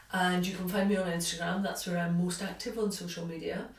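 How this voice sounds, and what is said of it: Scottish accent. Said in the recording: “the accent is Scottish”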